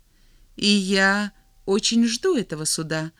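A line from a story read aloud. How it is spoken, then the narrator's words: Calm, friendly. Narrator (Russian): ответил Серебряный, так же спокойно и приветливо, как отвечал раньше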